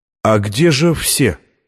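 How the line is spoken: Plain. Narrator (Russian): спросил он

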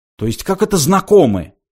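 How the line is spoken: Indignant mimicking. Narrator (Russian): возмущенно передразнил Форд

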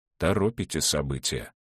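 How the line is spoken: Cold. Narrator (Russian): холодно сказал Клавдий Старш

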